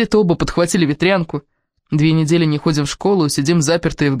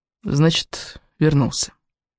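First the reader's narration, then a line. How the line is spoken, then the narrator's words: Barely audible speech. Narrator (Russian): говорю я так тихо, что сама себя едва слышу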